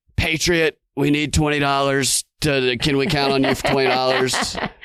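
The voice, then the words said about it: Alex Jones-style impression. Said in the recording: “He's morphing into fake Alex Jones a little bit there. ... That was a little Alex Jonesy right there.”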